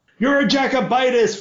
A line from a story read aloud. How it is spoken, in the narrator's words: Frederain shouted at the boy